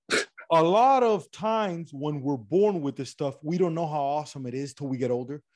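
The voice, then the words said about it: Regional Miami Cuban accent. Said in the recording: “My accent is this weird regional Miami Cuban accent that I got going on”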